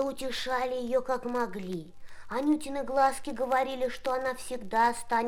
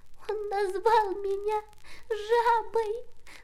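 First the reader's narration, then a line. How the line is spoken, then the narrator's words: Sobbing. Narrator (Russian): рыдала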